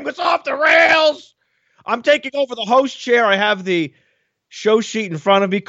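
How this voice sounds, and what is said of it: Yelling. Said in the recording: “I'm yelling.”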